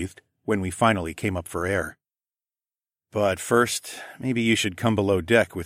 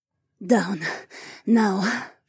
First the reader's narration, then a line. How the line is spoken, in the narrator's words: she rasped out